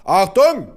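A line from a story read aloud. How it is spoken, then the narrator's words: Roared. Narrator (German): brüllte mein Vater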